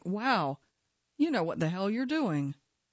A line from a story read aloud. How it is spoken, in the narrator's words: She laughs when she says